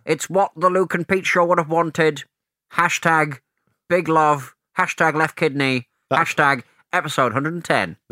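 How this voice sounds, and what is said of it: Speaks with a noticeable accent. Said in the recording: “That voice is why you will never work for the BBC ... my accent ... they love an accent”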